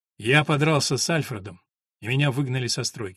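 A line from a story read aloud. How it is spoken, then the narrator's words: Gloomy. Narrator (Russian): мрачно проговорил Джек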